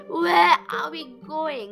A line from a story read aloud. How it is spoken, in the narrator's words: yawned